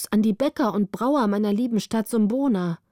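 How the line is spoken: Calling out. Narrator (German): rief Prinz Bonus

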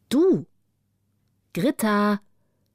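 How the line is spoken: A familiar voice calling. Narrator (German): rief eine Stimme, die wie Wilde Beeres klang

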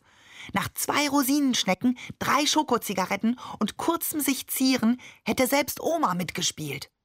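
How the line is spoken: Inner whisper. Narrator (German): flüsterte Tutu in meinem Kopf

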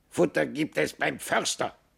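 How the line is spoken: Raven's croak. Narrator (German): krächzte der Rabe

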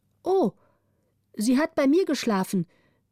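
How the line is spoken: Orphan calling out. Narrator (German): rief die Waise

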